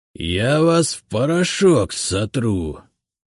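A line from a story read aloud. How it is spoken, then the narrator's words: Growl. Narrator (Russian): прорычал он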